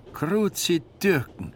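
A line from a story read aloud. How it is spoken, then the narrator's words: Man calling out. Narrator (German): rief der Mann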